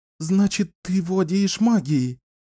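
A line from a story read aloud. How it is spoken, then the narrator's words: Breathless exhale. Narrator (Russian): выдохнула Надина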